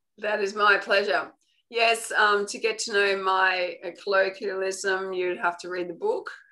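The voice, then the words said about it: Unfamiliar regional accent. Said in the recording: “I have a little bit to catch up with your accent ... it's just different”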